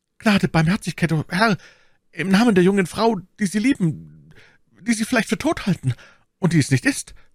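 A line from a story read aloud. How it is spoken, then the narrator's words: Weak, fading stammer. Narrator (German): stammelte der Mörder, da er mit dem Blut allmählich auch die Kraft verlor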